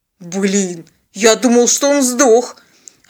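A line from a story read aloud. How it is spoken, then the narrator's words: Stunned hoarse rasp. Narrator (Russian): ошеломленно прохрипел пилот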